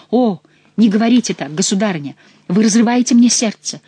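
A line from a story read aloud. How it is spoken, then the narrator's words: Feigned exclamation. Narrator (Russian): воскликнул Франсуа, сердце которого вовсе не разрывалось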